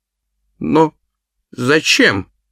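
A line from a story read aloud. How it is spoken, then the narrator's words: Stammering question. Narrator (Russian): запинаясь, спросил он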